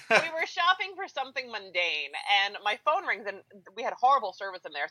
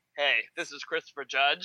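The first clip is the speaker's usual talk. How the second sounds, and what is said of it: Impression of Christopher Judge's voice. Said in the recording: “That was a very good impression of whatever that was.”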